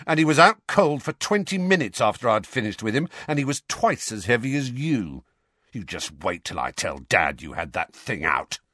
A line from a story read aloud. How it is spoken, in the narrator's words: snarled Dudley